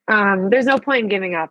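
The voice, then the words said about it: Emotional, choked-up voice. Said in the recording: “I'm going to get emotional again.”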